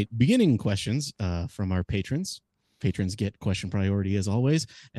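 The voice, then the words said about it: Formal business-like reading voice. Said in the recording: “put on my business voice”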